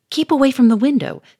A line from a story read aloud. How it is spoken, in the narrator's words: snapped Charolais